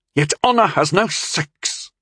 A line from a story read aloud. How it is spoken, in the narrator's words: Tyndall spat